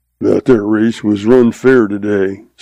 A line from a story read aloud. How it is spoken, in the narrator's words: says